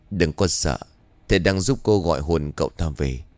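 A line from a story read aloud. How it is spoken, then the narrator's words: Quiet voice. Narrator (Vietnamese): Bà Xuân nhỏ giọng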